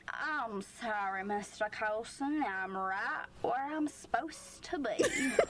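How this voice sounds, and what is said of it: Put-on Southern-ish American accent. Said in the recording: “southern-ish accent ... weird amalgamation of Southern America ... likes to do little accents”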